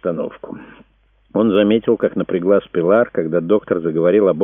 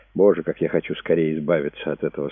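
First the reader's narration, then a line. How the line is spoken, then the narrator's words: Plain. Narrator (Russian): сказала она Брэду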